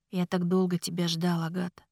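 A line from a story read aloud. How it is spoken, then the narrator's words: Quiet. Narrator (Russian): тихо сказал Ричард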